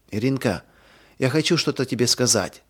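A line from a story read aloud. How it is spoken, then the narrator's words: Whisper. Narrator (Russian): прошептала она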